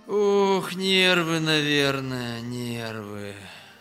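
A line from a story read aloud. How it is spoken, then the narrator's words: Sighing. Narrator (Russian): Вздохнул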